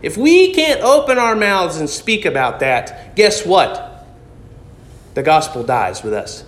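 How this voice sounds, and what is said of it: Loud, raised preaching voice. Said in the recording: “my voice got loud”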